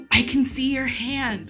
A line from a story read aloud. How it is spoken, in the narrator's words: Rey whispers